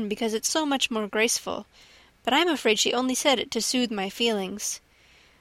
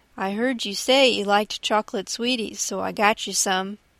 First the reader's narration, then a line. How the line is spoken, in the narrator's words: he said